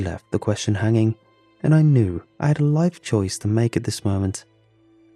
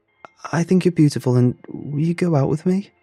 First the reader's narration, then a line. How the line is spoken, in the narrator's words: I gasped for breath